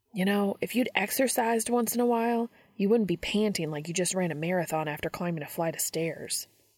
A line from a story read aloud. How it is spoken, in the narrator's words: Sam says